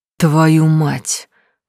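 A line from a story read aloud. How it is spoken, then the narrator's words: Gasping exhale. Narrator (Russian): судорожно выдохнул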